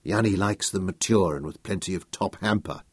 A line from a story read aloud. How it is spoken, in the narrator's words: Nicholas murmured to Royan from the side of his mouth